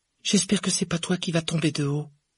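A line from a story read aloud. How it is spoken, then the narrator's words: Sighing. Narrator (French): soupira Hermione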